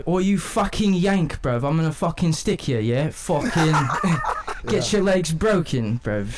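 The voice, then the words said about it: Put-on English Liverpool accent. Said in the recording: “let me hear what their accent ... Liverpool. Like, that's how they talk to you?”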